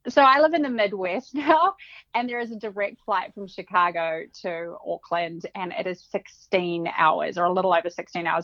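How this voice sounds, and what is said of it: New Zealand accent. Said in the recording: “where is the accent actually from? ... So I'm from New Zealand. I grew up in New Zealand ... not an Australian accent. They are a little bit different.”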